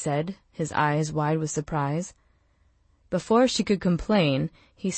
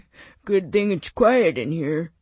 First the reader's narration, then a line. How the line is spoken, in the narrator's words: he said, laughing